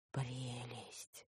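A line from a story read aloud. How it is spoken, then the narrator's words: Reverent whisper. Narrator (Russian): благоговейно прошептала я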